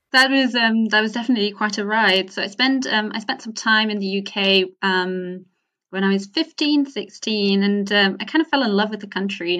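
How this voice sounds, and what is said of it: Slight UK accent in English. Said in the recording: “you have a slight UK accent in your English”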